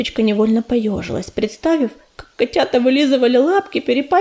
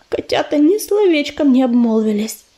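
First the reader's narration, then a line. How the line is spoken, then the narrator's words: Sighing. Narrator (Russian): вздохнула невидимка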